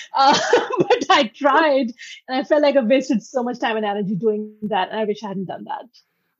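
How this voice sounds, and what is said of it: Noticeable accent. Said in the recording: “ashamed of my accent ... really ashamed of the way I sound ... I took accent correction classes, which obviously didn't work, as you can tell”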